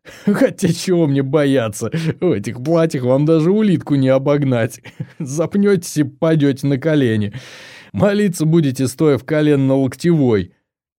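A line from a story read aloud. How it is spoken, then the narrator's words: Speaking through laughter. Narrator (Russian): не сдержался и захохотал, при этом пытаясь выговорить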